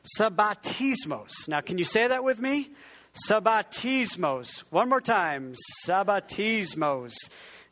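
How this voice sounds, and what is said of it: Italian-accented pronunciation. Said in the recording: “that's kind of Italian accent, which is wrong for the Greek”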